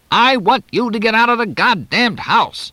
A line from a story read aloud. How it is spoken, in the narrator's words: Ted Sills shouted